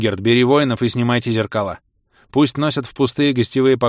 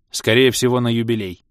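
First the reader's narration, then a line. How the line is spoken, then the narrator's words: Gloomy. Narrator (Russian): мрачно сообщил Бенгальт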